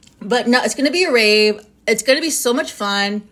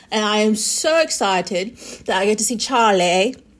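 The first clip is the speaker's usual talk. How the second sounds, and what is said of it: Fake put-on accent. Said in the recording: “my fake accent comes out when I talk about Charlie”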